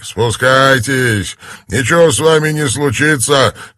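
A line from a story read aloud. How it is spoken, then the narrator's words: Shout. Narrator (Russian): крикнул Горнт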